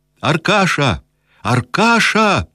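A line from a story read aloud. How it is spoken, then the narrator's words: Shouting. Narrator (Russian): закричал Кирсанов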